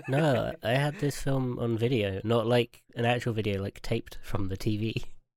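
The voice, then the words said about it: Ill, sick-sounding voice. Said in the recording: “I am ill. My voice sounds like this”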